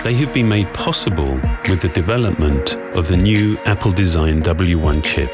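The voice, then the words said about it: Velvety British accent. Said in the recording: “the velvety British accent of Johnny Ive”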